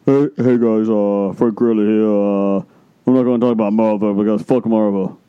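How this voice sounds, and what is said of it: Imitates another person's voice. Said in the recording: “that impression of Frank Grillo ... That was an impersonation of Frank Grillo?”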